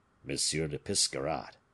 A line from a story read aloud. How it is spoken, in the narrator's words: said he in a low voice